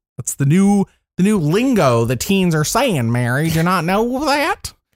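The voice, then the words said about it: Put-on old man voice. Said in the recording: “That's my old man voice.”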